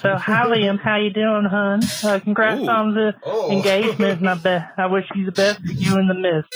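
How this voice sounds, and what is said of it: Put-on Southern West Virginia accent. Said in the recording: “I'm just going to give you my best Southern West Virginia accent”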